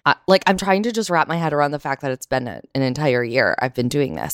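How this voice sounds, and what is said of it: Raspy voice. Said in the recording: “my voice is a little raspy.”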